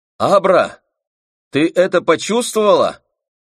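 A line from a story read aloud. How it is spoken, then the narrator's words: Shout from downstairs. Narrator (Russian): От подножия лестницы крикнул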